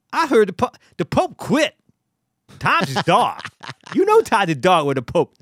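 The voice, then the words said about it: Tracy Morgan impression, not great. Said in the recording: “He could do a Tracy Morgan ... Tracy Morgan. I do a little bit of Tracy ... Nah, that's not good ... It's not bad.”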